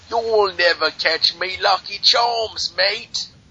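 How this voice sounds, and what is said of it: Irish speaker attempting Australian accent. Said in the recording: “his Irish attempt at a Australian accent ... It'll be his normal voice ... It'll sound Jamaican”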